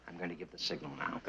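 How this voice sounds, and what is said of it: Whispering. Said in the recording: “whispering”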